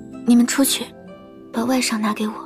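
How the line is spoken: Low voice. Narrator (Chinese): 低声对碧罗和春荣说

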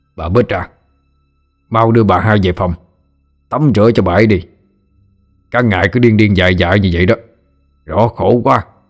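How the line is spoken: Man shouting. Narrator (Vietnamese): Giọng một người đàn ông quát lên

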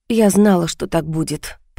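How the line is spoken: Muttered. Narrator (Russian): пробормотала я

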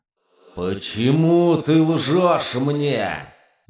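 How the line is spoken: Growl. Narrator (Russian): рычал демон

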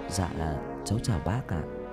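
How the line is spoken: Soft quiet voice. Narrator (Vietnamese): Tân nhỏ giọng

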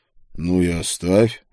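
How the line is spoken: Lazy reply. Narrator (Russian): лениво ответил я

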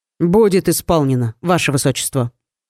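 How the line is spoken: Confident reply. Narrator (Russian): уверенным тоном отозвался Айрон

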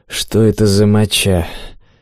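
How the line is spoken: Hoarse question. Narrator (Russian): Сипло поинтересовался

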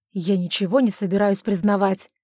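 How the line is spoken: Snapping retort. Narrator (Russian): огрызнулся он

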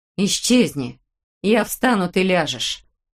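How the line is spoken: Through clenched teeth. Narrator (Russian): сказала Улита сквозь зубы

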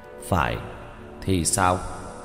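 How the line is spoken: Cold. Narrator (Vietnamese): lạnh lùng nói

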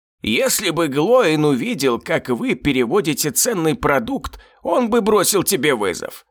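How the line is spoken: Creaky voice from darkness. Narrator (Russian): проскрипел из темноты знакомый голос

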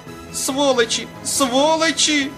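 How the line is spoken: Screaming. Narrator (Russian): завопила Серафима Яковлевна

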